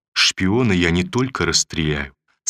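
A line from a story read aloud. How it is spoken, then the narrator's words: Plain. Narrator (Russian): сказал он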